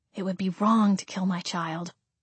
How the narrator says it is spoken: I muttered

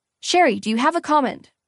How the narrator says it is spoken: one reporter called out

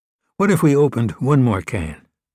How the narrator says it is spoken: Clue asked

